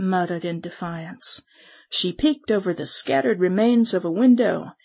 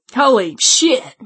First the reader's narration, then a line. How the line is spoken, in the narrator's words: one of them exclaimed